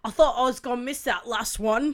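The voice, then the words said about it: Bad put-on British accent. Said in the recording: “Your British accent is amazing... That one was my bad British accent.”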